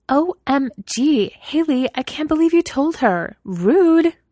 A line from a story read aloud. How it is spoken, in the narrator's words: Mina snapped indignantly